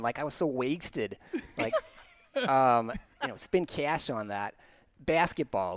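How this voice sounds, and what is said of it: Put-on Chicago accent. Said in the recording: “I would prefer that you speak in that accent on this podcast. ... There's only certain words that I can do it in. ... like that accent was just around me the whole time ... in Chicago”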